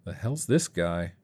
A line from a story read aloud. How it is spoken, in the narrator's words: Dave muttered